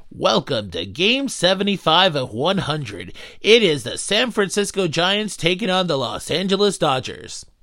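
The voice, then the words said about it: Sports announcer voice. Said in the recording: “That was my announcer voice.”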